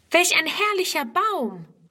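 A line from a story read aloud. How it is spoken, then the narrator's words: Calling out at once. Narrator (German): ruft Friedrun sogleich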